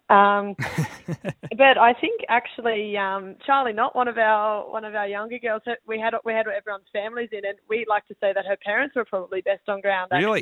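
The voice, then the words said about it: Hoarse, croaky, partly lost voice. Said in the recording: “you could probably tell my voice is a little bit gone. It's quite a bit croaky at the moment”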